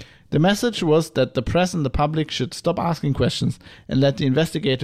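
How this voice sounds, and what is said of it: Usual voice. Nothing is said of it.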